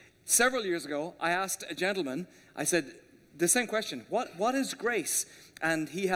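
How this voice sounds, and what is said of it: Usual voice. Nothing is said of it.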